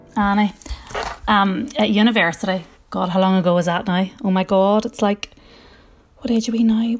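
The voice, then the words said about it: Derry Northern Irish accent. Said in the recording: “is from Derry, as you will hear from her fantastic accent.”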